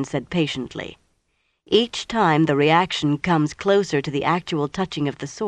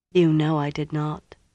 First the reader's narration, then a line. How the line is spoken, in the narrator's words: Moiraine said gently